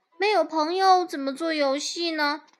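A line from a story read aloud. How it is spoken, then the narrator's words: Mole sighing. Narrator (Chinese): 鼹鼠叹了一口气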